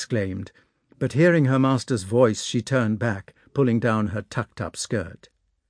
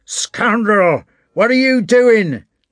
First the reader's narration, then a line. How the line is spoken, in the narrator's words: shouted the innkeeper